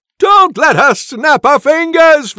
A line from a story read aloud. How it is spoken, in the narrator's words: Wilhelm screams